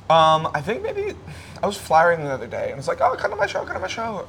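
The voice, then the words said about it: Noticeable accent. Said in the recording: “Someone had a go at you for your accent the other day on stage ... how dare you make fun of my accent ... not with that accent”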